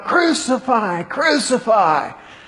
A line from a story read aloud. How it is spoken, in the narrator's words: the chief priests and the officers cried out